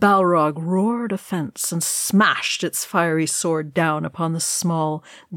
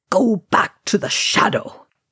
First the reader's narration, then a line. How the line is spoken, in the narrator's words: he spat